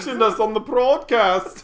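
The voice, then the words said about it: Bad fake Swedish accent. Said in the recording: “That's the worst Swedish accent, man. We are the worst. ... That's real bad. Mine was more of a German.”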